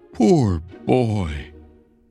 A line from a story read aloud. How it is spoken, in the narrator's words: cried again